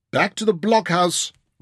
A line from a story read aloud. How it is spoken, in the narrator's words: Ryder yelled